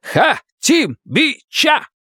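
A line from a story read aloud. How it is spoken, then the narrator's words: Crowd shouting in unison. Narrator (Russian): Кричали все как один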